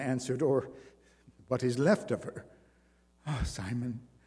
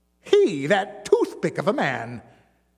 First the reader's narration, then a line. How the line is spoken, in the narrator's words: the bareback rider cried with one of his silent laughs